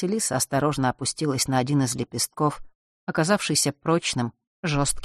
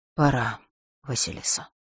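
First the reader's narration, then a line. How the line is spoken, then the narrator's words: Whispered. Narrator (Russian): прошептала Диара Делш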